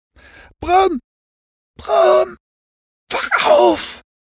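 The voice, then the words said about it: Whispering. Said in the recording (German): “flüsterte er ihm zu”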